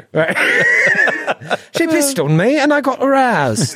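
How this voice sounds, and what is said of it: Bad put-on Cockney accent. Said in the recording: “I'm yucking your accent ... speak to each other in bad Cockney”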